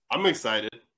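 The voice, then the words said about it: Flat monotone delivery. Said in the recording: “That with the most monotone. ... The reason why I said it so monotone”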